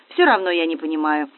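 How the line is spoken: Glum admission. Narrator (Russian): уныло признался Николай

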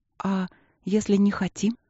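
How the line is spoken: Timid question. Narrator (Russian): робко спросила Зара

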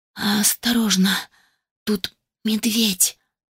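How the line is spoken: Slurred mumble. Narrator (Russian): пробормотала, едва ворочая языком

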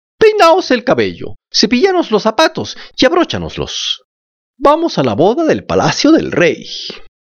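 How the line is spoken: Happy exclamation. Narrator (Spanish): Las dos hijastras, cuando supieron que también tenían que estar presentes, se pusieron muy contentas, exclamaron

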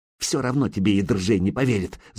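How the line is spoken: Hissing. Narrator (Russian): зашипела Зарица

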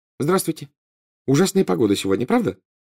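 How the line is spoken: Cheerful. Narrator (Russian): весело сказала Гермиона

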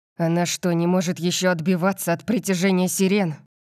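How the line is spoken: Barked. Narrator (Russian): рявкнул я

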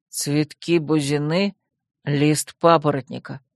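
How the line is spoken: Muttering. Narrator (Russian): бормотал Койл

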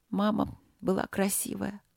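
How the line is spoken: Sighing, slightly relaxed. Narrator (Russian): вздохнула принцесса, чуть расслабившись

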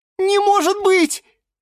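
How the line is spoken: Shrill squeal. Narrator (Russian): взвизгнула фиалка Наталка

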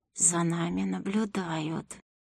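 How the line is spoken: Quiet, through clenched teeth. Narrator (Russian): тихо, сквозь зубы сообщил леший

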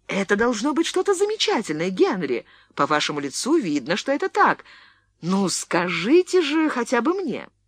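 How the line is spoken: Excited exclamation. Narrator (Russian): Леонсия, сверкая глазами, воскликнула

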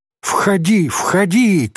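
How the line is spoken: Startled shout. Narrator (Russian): крикнула Софичка, опомнившись

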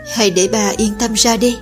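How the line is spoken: Flat, after long pause. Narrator (Vietnamese): Oanh ca mặt không biểu cảm, hồi lâu sau mới nói

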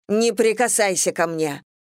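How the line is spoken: Barked. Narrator (Russian): рявкнула я

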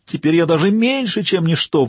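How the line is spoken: Howled. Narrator (Russian): взвыл

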